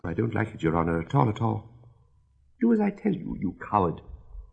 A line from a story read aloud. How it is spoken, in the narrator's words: whispers now and then